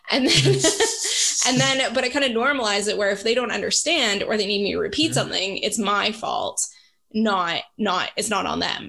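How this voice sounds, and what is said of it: Canadian accent, speaks very fast. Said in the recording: “I speak English with a perfect Canadian accent, but I know I speak really fast”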